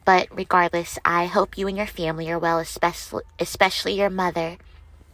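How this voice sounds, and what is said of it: Voice affected by illness. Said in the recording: “excuse my voice. I am just getting over the flu and strep.”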